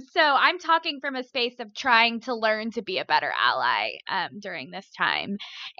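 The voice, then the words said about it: Valley Girl accent. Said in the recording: “my Valley Girl accent”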